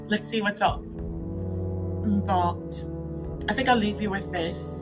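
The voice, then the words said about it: Badly done put-on accent. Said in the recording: “especially in this accent ... the accent sounds absolutely terrible”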